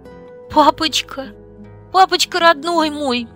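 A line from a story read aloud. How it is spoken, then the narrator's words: Wailing through sobs. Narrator (Russian): причитала сквозь рыдания, не в силах сказать что-то еще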